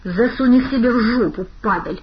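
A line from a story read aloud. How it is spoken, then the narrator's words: Through gritted teeth. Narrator (Russian): процедил Савелий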